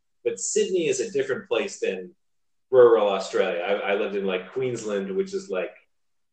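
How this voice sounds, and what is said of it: American accent. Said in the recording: “if they pick up on your accent, they're like, where are you from? And then, and then you say the United States, and they say where, and then you say Pennsylvania.”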